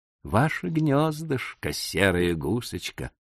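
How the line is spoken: Tender. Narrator (Russian): ласково сказал

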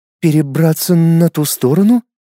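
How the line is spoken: Bewildered repeating. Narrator (Russian): растерянно повторила Луиза

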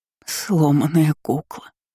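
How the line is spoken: Sobbed. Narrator (Russian): всхлипнула

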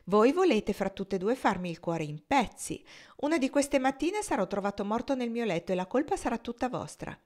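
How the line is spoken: Exclamation. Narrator (Italian): esclamò Adolfo

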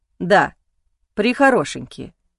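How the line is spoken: Polite but dry. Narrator (Russian): ответил он вежливо, но абсолютно сухо

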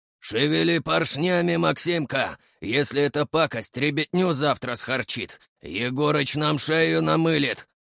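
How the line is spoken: Hoarse bass voice. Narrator (Russian): ответил ему хриплый бас

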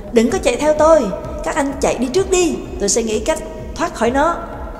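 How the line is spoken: Sharp, irritated snap. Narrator (Vietnamese): Trắc Mộc Cường Ba gắt lên

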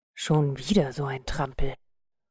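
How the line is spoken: Muttered. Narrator (German): murmelte sie

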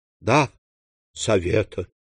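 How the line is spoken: Dejected voice. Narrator (Russian): упавшим голосом отвечала госпожа Данглар

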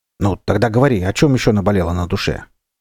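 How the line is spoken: Slightly angry bartender. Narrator (Russian): немного сердито обронил бармен

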